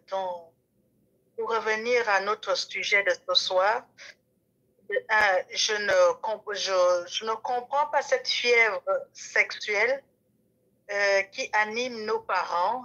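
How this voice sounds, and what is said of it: Gabonese accent in French. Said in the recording (French): “mon accent est gabonais”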